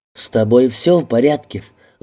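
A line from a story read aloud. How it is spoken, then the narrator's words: Anxious breathless. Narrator (Russian): взволнованно выдохнула она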